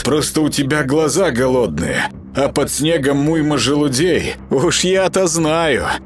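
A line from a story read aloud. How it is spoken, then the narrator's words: Laughing. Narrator (Russian): засмеялась Марианна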